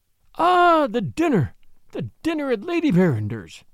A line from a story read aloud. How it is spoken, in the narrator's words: he exclaimed, more eagerly than ever